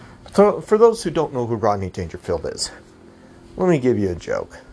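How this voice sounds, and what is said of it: Usual voice. Nothing is said of it.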